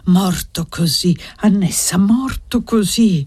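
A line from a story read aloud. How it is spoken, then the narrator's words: Sighing murmur. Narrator (Italian): Pregava e sospirava e ogni tanto mormorava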